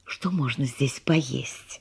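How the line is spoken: Whisper. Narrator (Russian): шепнула она

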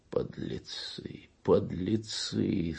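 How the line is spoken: Moaning. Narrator (Russian): стонал Кунчинос

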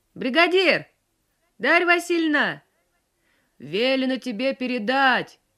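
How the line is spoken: Shouted by an old man. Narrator (Russian): прокричал ей с коня пожилой и тоже весь мокрый старик

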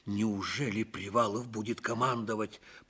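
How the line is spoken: Muttered. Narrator (Russian): пробормотал Ливенцев

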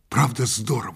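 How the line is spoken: Whispered. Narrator (Russian): шепнул я

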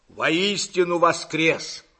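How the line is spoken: Barking shout. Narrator (Russian): рявкнул Длугач

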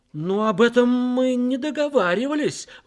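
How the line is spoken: Exclaimed. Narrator (Russian): воскликнул Гастингс

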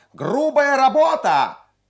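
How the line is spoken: Shrill boy's shout from gallery. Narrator (Russian): пронзительный мальчишеский голос крикнул с галерки

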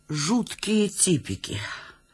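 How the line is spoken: Plain. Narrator (Russian): сказала Верченко

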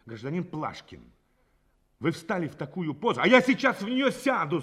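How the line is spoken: Angry interruption. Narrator (Russian): зло перебил задержанный

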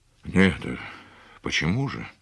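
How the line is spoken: Muffled, forced out. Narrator (Russian): глухо выдавил из себя Андрей Семенович

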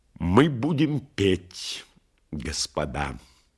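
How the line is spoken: Loud. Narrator (Russian): громко сказал полковник

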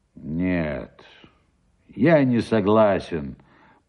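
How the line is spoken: Grumbling. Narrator (Russian): проворчал Шубин

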